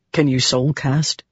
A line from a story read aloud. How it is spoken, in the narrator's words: Dalinar asked softly